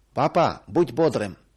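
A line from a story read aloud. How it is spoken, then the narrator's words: Shout. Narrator (Russian): крикнул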